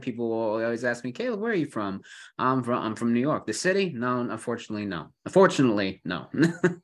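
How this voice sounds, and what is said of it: Buffalo New York accent. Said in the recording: “If you hear the accent, I'm originally from New York, not the city, mind you, but Buffalo area. But I still held on to that accent.”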